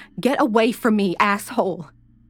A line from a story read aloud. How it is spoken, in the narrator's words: She screamed